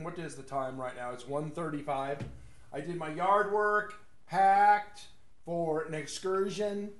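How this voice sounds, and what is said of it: Slightly hoarse voice. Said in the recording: “Right now, it's actually slightly hoarse”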